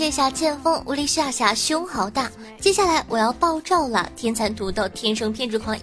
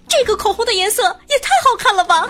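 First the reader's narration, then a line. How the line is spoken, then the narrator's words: Shrieking uncontrollably. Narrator (Chinese): 他失控地尖叫道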